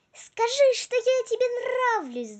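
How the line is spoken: Shouted. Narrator (Russian): закричала Вики

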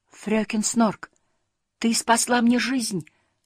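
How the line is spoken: Exclaiming. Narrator (Russian): воскликнул Муми-тролль

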